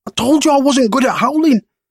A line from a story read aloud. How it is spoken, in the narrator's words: Marcus said in between gasps of air